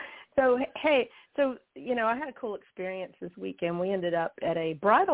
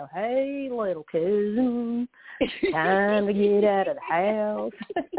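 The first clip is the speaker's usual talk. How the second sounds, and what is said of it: Put-on Southern twang. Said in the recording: “you need that southern twang now”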